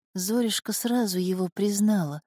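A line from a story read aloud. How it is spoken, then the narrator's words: Whispering. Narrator (Russian): шептала Зула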